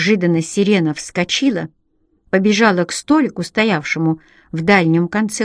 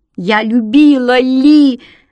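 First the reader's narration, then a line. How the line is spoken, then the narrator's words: Woman screaming. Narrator (Russian): вопила она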